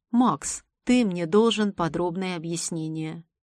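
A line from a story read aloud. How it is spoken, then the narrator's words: Dazed grumble. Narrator (Russian): проворчал едва пришедший в себя от новых впечатлений Альтер Анцерский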